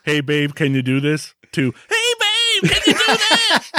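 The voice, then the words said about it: Sing-song call turning into scream. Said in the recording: “the singing and then screaming ... I scream it across the house ... That's a great impression”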